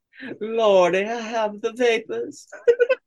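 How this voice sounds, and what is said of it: Put-on Southern belle voice. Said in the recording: “I can do that voice too well... Southern bell”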